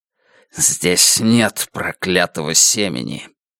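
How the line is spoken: Annoyed hiss. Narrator (Russian): Утес с досадой прошипел

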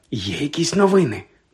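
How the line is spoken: Whispered aside. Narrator (Ukrainian): додала вона пошепки, щоб не почула мадам Помфрі

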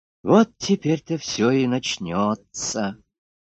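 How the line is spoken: Sigh. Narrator (Russian): вздохнула Люська

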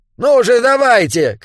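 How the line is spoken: Shouting. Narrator (Russian): крикнул Уильям

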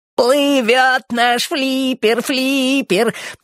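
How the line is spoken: Sugary singsong. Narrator (Russian): пропел он приторным голоском

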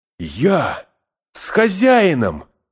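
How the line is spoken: Exclamation. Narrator (Russian): воскликнул Сэм

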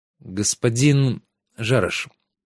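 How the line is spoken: Hesitant. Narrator (Russian): неуверенно начал Трикс

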